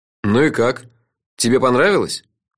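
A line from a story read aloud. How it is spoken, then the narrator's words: Gloomy question. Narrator (Russian): Мрачно осведомился я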